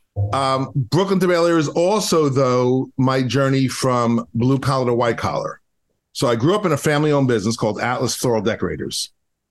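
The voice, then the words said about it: Strong Brooklyn accent. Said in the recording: “You can still hear it. 30 years I'm in LA and I sound like I'm on Flatbush Avenue. 30 years I can't get rid of the accent. In fact, every year my accent gets stronger.”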